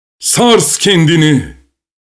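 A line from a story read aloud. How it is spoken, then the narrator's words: Crying out. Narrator (Turkish): diye haykırdı Mimer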